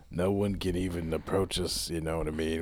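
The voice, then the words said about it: Gravelly voice imitating another person. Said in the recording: “We got this gravelly voice... We're doing this voice... Al Pacino kind of territory... kind of doing an Al Pacino kind of thing right now”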